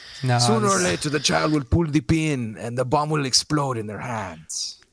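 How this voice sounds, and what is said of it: Italian priest accent. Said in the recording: “You've got to say it with a Vatican priest Italian accent”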